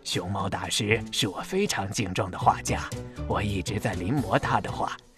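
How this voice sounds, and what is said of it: Quiet, hushed voice. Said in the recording (Chinese): “附在小泼猴耳旁， 小声说”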